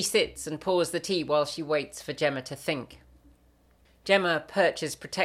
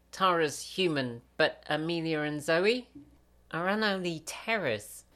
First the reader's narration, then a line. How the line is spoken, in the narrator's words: Gemma mutters